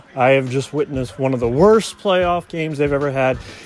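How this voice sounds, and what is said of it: Frustrated tone of voice. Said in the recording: “You can hear it in my tone. I am super frustrated”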